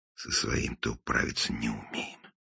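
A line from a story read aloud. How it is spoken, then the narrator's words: Mumbled in Russian. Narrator (Russian): пробормотал он по-русски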